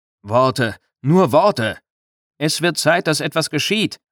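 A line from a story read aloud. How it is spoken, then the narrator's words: Shouting. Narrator (German): schrie einer der Stadtväter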